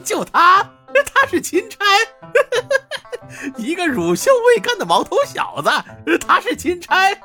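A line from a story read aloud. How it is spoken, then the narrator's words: Loud mocking laughter. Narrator (Chinese): 马公子哈哈大笑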